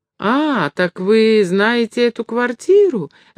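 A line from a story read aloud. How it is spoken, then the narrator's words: Joyful interrupting old woman. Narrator (Russian): радостно перебила его старушка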